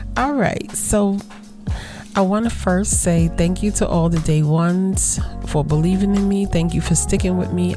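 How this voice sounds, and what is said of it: Hoarse, fading, lower voice. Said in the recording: “I'm losing my voice, though. So I might sound a little more sultry than I normally do”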